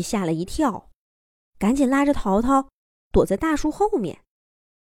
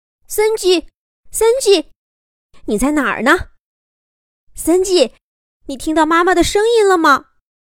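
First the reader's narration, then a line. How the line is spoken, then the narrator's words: Anxious repeated calling. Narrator (Chinese): 着急的 还不停的叫着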